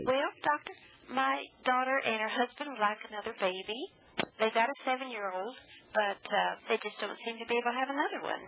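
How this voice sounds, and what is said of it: Nashville Southern accent. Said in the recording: “I just love that Nashville accent.”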